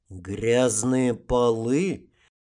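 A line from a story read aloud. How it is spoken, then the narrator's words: Slow repetition, dragon. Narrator (Russian): медленно повторил дракон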